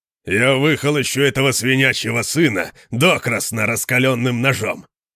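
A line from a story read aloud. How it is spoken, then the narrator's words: Growling. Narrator (Russian): прорычал Конан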